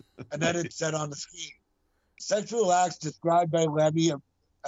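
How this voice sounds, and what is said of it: Usual voice. Nothing is said of it.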